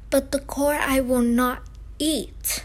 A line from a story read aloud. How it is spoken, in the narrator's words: cried Pinocchio in an angry tone